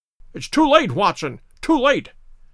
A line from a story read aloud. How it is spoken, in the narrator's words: cried Holmes